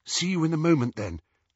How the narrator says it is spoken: said Hermione nervously

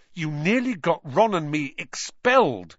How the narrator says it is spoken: he said fiercely

